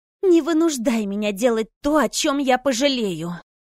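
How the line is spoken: Menacing, through gritted teeth. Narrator (Russian): угрожающе процедила девушка сквозь зубы

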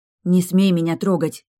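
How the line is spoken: Threatening, through gritted teeth. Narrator (Russian): угрожающе процедила я

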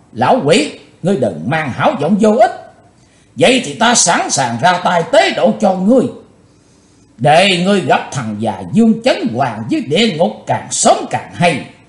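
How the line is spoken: Furious loud shout. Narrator (Vietnamese): Chí Tôn nổ giận quát to

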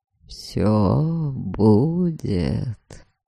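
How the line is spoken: Hoarse excited assurance. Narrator (Russian): Хриплым от возбуждения голосом заверил Дориан

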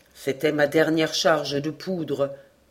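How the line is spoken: Plain. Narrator (French): dit-il

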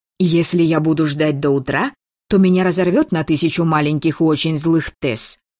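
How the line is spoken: Snapping. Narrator (Russian): огрызнулась я

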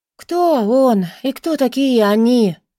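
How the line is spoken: Sleepy question. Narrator (Russian): сонно поинтересовалась Британи

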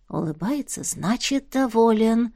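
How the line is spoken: Knowing whisper. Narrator (Russian): сознанием дела зашептала главная девица

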